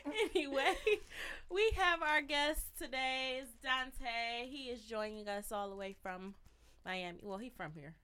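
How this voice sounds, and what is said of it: Sick, rough-sounding voice. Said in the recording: “I'm a little sick today, so y'all gonna get some of this sexy voice”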